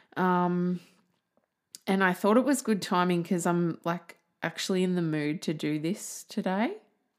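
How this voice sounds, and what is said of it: Slightly shaky, croaky voice. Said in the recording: “My voice might sound a little shaky because I was just singing ... projecting my voice. So it goes a little bit croaky and quaky”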